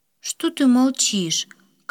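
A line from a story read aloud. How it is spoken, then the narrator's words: Weary question. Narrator (Russian): Как-то устало спросила она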